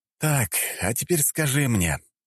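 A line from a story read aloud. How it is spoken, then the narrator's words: Sighing. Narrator (Russian): вздохнул я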